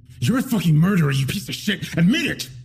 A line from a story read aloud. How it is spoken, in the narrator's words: he said through gritted teeth